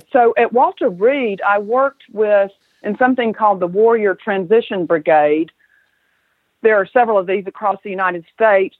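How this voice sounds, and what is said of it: Southern US accent. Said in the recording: “as you might can tell from my accent, I'm a southern girl. It sounds like it, yes.”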